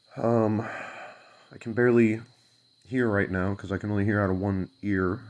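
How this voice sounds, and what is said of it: Sick-sounding, altered voice. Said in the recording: “my voice sounds a little bit different ... still kind of sick”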